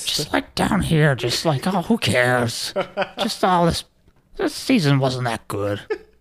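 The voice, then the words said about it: Low, weary mob-mother character voice. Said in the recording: “you do it in Tony Soprano's mom's voice ... How do you do that voice? ... That's my favorite voice in The Sopranos”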